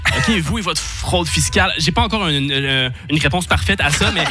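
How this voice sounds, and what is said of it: Canadian French accent. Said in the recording (French): “On va me parler de mon accent. On va me parler du Canada.”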